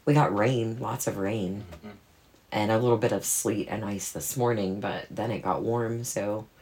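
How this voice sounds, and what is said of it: Sick, slightly rough voice. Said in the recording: “my voice is a little bit under the weather”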